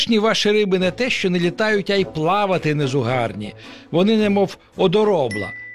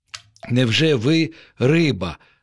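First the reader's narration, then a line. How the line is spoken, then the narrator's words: Plain. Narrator (Ukrainian): запитав пустомелик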